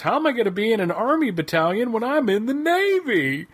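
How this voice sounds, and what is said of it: Imitates another person's voice. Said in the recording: “doing a Don Knotts impersonation”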